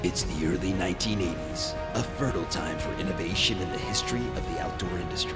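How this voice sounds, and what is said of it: Dramatic movie trailer narrator voice. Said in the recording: “my movie trailer voice.”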